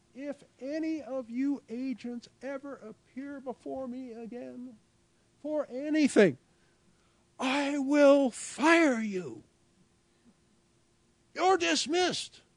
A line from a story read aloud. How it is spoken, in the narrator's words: Gray going over the top and screaming